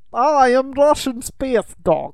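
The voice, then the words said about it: Put-on Russian accent. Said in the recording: “has a Russian accent”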